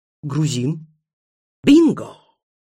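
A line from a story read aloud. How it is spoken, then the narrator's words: Exclaimed. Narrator (Russian): воскликнула ведьма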